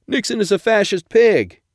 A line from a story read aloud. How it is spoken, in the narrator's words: heckler yelled